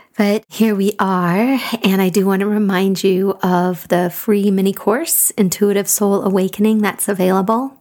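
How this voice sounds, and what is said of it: Gruff voice from a cold. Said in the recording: “I have a little cold, so my voice is a little gruff”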